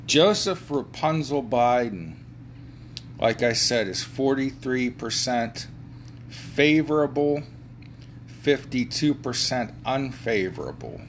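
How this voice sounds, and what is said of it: Put-on German accent. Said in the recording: “Why am I talking with a German accent?”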